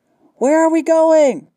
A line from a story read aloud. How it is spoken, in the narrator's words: she called out